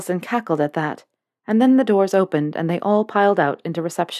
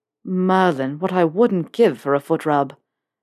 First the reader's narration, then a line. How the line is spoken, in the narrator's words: Draco groaned